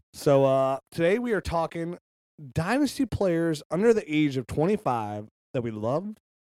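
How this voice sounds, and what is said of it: Scratchy, froggy sick voice. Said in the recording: “my voice sounds scratchy or goes in and out, well, it's because it's sick ... You're a little froggy, huh?”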